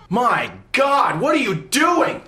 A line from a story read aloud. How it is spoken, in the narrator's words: A voice inside my head is yelling